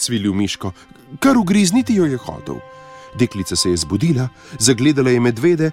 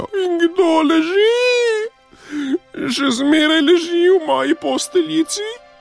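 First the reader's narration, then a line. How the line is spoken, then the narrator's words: Desperate squeal. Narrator (Slovenian): Miško zacvilil, kakor da ga koljejo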